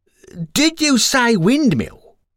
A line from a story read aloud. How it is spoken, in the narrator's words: said the passerby, raising his voice slightly